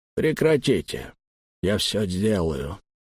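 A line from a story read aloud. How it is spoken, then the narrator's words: Quiet interruption. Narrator (Russian): тихо прервал нас Эккер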